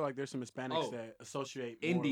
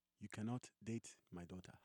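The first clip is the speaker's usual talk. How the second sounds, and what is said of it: Put-on Nigerian accent. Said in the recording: “The educated African accent... do the accent, bro. You do the best. The Nigerian accent.”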